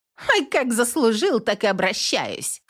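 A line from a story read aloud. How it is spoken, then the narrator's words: Snort. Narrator (Russian): Фыркнула девушка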